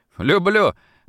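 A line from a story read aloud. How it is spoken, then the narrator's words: Delighted laugh. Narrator (Russian): Даже засмеялся от удовольствия Антошин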